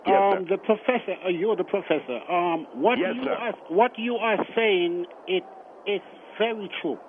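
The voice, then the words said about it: Virgin Islands Caribbean accent. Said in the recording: “I'm from the Virgin Islands, so forgive my accent a little bit.”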